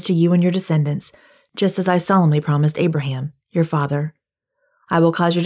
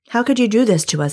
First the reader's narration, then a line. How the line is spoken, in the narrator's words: Abimelech exclaimed